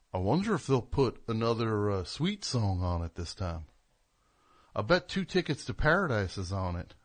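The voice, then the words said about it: Goofy Gomer Pyle-style character voice. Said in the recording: “giving him that voice... What is he, Gomer Pyle, all of a sudden?”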